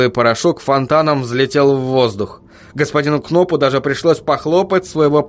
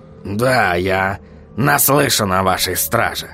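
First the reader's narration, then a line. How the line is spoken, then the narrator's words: Wry snort. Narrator (Russian): хмыкнул господин Кноп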